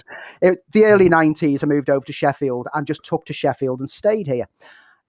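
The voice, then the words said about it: Liverpool accent. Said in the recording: “I'm originally from Liverpool. The accent might give a bit of it away.”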